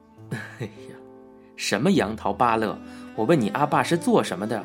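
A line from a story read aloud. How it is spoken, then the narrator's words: Smug. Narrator (Chinese): 很得意的补充道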